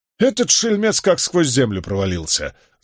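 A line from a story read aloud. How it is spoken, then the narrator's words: Angry. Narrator (Russian): злобно сверкнул глазами Болейн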